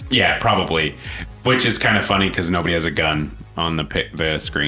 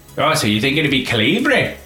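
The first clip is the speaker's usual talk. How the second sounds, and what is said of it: Put-on Irish leprechaun accent. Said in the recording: “Why did you sound like a leprechaun?”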